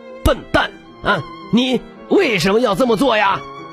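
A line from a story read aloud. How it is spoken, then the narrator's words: Angry father asking. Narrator (Chinese): 爸爸愤怒地问道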